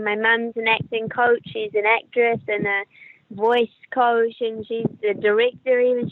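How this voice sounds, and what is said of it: New Zealand accent. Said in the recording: “you can probably hear from my accent that I'm a New Zealander.”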